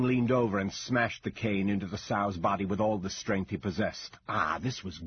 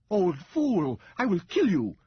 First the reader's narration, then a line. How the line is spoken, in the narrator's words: Ming Yang screamed